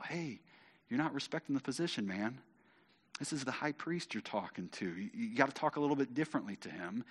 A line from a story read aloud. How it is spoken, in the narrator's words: And someone whispers to Paul